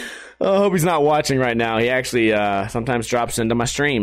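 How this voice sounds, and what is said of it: Usual voice. Nothing is said of it.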